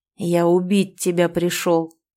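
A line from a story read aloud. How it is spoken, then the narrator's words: Growled. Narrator (Russian): прорычал я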